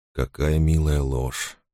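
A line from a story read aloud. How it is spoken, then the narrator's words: Quiet reply. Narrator (Russian): ответил он так же тихо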